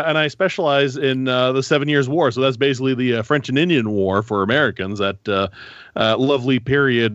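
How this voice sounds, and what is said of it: Goofy Northern Ontario accent. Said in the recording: “I'm French-Canadian, despite the goofy Northern Ontario accent.”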